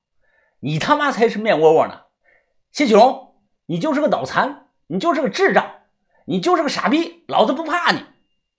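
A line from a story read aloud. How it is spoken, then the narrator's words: Exhilarated shouting. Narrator (Chinese): 当面喊出这段话 我心里是太畅快、太爽了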